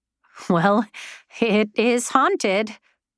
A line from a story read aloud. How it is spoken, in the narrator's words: she said with a light laugh